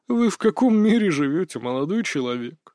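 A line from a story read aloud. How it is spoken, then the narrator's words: Sad chuckle. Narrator (Russian): грустно усмехнулся хозяин лавки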